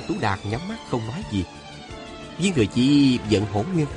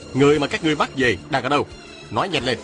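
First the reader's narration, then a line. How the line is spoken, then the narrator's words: Barking demand. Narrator (Vietnamese): Viên Thừa Chi quát hỏi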